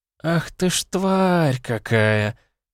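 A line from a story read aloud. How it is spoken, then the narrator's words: Admiring drawl, princess. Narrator (Russian): с восхищением протянула принцесса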